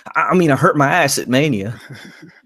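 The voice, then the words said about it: Imitates another person's voice. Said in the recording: “I don't have a good AJ Styles impression... it wasn't bad... It's commendable... my impression of Kazarian doing an AJ Styles impression”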